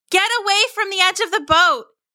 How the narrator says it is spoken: their mother yelled

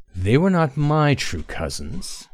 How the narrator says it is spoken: Tay said coldly

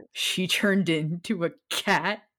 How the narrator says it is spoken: Sirius chuckled

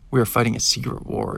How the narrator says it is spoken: exclaimed Trey

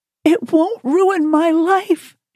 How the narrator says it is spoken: pleaded

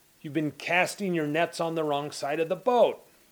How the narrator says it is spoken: Jesus, a landlubber, shouted from the shore

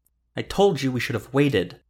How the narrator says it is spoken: Carmagnola snapped

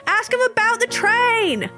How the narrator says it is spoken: somebody shouts from the train

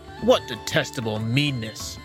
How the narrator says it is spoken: grumbled one

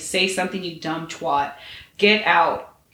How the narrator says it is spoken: say coldly

